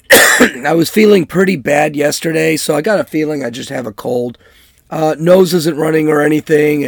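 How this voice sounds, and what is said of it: Hoarse voice, frog in throat. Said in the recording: “I've got a little bit of a frog in my throat. I sound kind of hoarsey. ... coming down with a cold”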